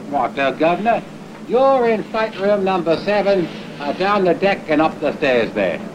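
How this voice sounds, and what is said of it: Exaggerated Cockney English accent. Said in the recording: “talking in this Dick Van Dyke English accent ... He was that authentic for this Cockney accent.”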